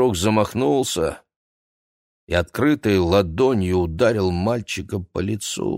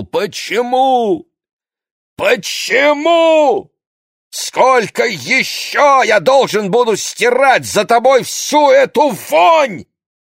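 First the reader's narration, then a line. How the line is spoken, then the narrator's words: Shouting. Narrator (Russian): Моше крикнул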